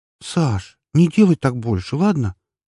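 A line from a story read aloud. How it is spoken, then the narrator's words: Pleading request. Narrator (Russian): попросила она практически умоляющим тоном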